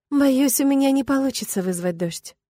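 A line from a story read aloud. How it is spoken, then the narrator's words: Sigh. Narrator (Russian): вздохнула я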